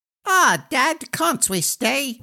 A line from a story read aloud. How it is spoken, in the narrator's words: whined the gnome